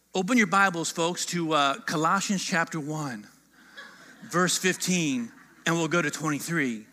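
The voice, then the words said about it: Put-on Texas accent. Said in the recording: “That's my Texas accent.”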